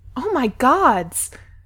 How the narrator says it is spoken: someone exclaims

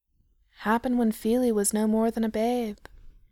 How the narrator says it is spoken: Dory said sadly, giving a little sniff

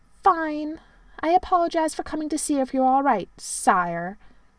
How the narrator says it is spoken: sulkily said

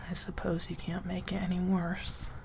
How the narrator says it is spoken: he sighs

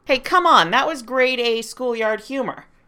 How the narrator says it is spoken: Clint yelled

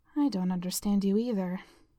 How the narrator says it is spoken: Jessica muttered

